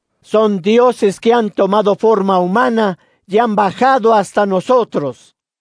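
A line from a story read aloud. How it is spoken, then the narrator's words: Shouting in dialect. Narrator (Spanish): comenzó a gritar en dialecto licaonio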